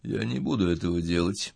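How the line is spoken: Muffled, flat. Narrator (Russian): глухо сказал Сауляк

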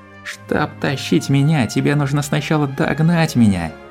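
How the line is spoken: Laughing. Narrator (Russian): Она все ещё смеялась

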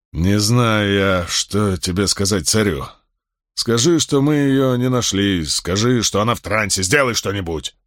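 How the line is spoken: Barking snap. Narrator (Russian): рявкнул Полис

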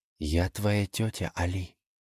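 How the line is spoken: Barely audible, emotional. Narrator (Russian): едва слышно ответила госпожа Е, не разжимая объятий

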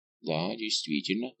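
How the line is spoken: Muttering. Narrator (Russian): пробормотал Фуке

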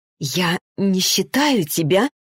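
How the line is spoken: Whisper. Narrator (Russian): прошептала Арина

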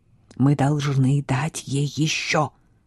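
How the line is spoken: Secret whisper. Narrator (Russian): продолжал шептать Криспин, пока их никто не мог слышать

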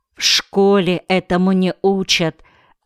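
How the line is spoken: Plain. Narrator (Russian): ответил Риинтен

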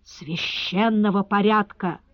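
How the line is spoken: Hissing whisper, interrupting. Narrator (Russian): свистящим шепотом перебил консула маклер Гош

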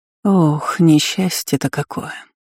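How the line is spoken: Sorrowful sigh. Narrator (Russian): вздохнула горестно

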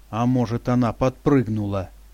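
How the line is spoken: Grumbling. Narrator (Russian): пробурчал Алан

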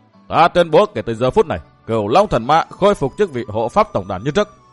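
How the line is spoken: Raised voice. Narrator (Vietnamese): Vạn Cực Đế Quân cao giọng

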